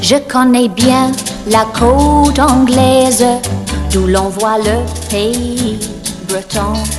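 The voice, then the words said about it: French sung with English accent. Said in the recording (French): “son accent pétulant anglais”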